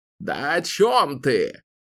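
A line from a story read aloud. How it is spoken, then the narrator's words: Roaring. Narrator (Russian): взревел Зед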